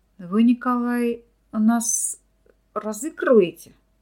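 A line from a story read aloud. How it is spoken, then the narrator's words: Mumbling, stammering. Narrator (Russian): промямлил, заикаясь, лаборант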